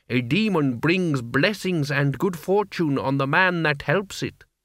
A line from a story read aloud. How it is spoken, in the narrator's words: said the man